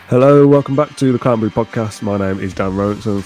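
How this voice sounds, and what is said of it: Sick, rough-sounding voice. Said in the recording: “I'm ill again... I've had a temperature... I've been shivering... my voice sounds terrible”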